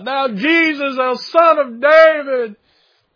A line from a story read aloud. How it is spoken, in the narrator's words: yelling out above the crowd